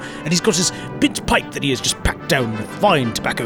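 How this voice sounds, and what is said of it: Put-on British accent. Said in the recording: “props on your British accent”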